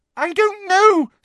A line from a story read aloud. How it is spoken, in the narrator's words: squealed Hermione, terrified